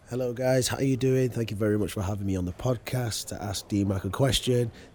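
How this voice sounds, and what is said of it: Hoarse, rusty voice. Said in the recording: “my voice has gone a little bit because I've had a poor sore throat over the last couple of days, so it's finally gone to that lovely rusty velvety stage”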